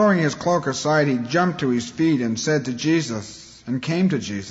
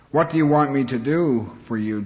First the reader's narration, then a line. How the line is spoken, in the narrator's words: Jesus asked